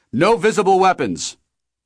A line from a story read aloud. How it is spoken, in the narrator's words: One of them shouted from out in the hallway